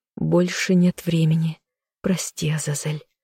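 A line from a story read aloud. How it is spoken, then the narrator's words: Soft whisper, eyes shut. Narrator (Russian): тихо прошептала она, зажмурившись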